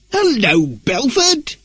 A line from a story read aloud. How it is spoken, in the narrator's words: he cried loudly